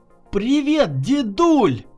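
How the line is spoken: Joyful exclamation. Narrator (Russian): радостно воскликнул Егор

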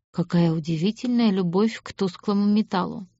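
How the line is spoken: Quiet. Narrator (Russian): негромко произнес Аид

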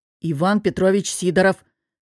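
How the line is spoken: Hissed through clenched teeth. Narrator (Russian): сквозь стиснутые зубы прошипел мудила

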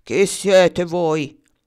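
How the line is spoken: Giant's thundering shout. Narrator (Italian): il gigante di bronzo gridando con voce tonante

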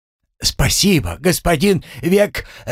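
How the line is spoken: Shouting after someone. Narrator (Russian): закричал ему вслед пленный разведчик

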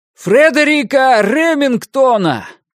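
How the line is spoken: Shouted at full lung power. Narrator (Russian): прокричал он во всю мощь легких

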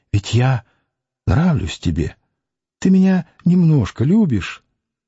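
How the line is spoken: Whispered question. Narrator (Russian): Она спрашивала шепотом

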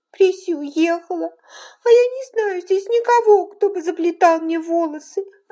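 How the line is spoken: Sobbing. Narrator (Russian): рыдала она

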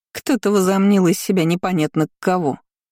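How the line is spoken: Scornful snort. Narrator (Russian): фыркнула аристократка

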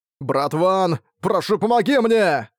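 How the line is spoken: Grieved indignant loud cry. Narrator (Russian): В его голосе прозвучало скорбь и негодование громко крикнул

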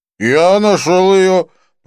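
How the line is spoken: Drunken voice. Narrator (Russian): проговорил нетрезвым голосом Винсон

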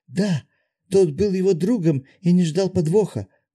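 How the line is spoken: Timid babbling. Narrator (Russian): пролепетала Широ

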